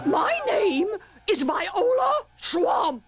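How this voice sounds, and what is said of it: Scratchy character voice. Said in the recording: “said the lady in a scratchy voice.”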